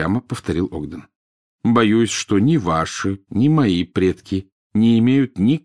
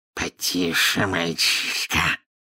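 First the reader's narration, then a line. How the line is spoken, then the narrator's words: Hissed in snake tongue. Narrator (Russian): прошипел Мракс на змеином языке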